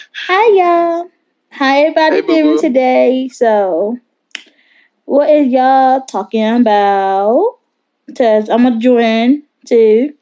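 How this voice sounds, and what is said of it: Happy, cheerful voice. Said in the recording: “She sounds so happy.”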